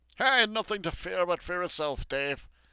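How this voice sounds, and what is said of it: Impression of Franklin Roosevelt. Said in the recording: “Nice work on Roosevelt's voice, by the way ... trying to match his Middle Atlantic accent would be pretty hard, since it's an affected or cultivated accent rather than a natural one”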